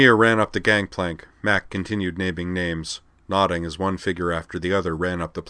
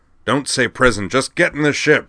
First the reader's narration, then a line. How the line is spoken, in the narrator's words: Lorg snarled